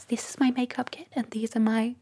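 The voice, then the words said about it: Soft ASMR-style whisper. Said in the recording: “ASMR... gentle whispering... Whispering... speaking like this”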